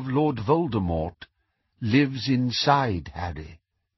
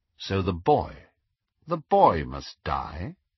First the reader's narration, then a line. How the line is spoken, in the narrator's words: asked Snape quite calmly